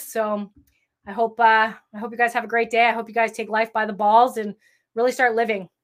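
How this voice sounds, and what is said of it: Strained, fading voice. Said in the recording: “I'm fired up and now I'm losing my voice.”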